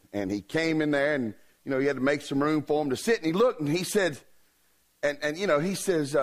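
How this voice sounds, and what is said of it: Usual voice. Nothing is said of it.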